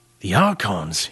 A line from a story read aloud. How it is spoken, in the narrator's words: he whispered